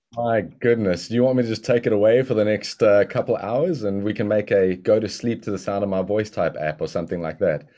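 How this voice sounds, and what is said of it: South African accent. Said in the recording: “you're going to hear the beauty of the South African accent”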